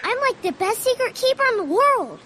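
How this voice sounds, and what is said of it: Childlike baby voice. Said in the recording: “little baby voice”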